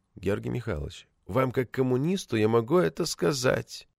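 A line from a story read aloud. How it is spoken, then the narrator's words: Very quiet, barely moving lips. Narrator (Russian): Макетсон очень тихо, почти не разжимая губ, сказал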